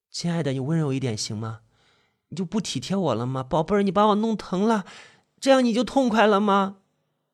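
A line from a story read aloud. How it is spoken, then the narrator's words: Loud sobbing. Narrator (Chinese): 高贺……放声大哭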